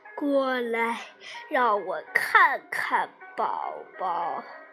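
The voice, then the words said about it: Wolf imitating grandmother's voice. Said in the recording (Chinese): “大灰狼学外婆的声音说”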